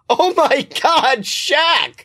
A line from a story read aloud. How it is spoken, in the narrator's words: Scotty laughs